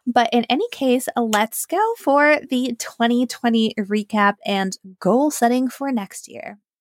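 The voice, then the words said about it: Voice sounds a bit weird. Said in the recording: “as you can tell, my voice sounds a bit weird.”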